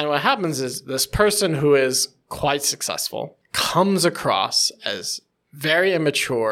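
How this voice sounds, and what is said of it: Usual voice. Nothing is said of it.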